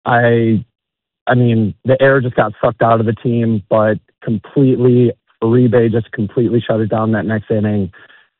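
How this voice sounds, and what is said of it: Hoarse, nearly lost voice. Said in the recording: “my voice is completely gone ... keep losing your voice”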